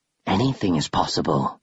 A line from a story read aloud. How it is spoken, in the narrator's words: the creature whispered